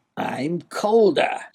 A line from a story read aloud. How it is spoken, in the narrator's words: snarled the Duke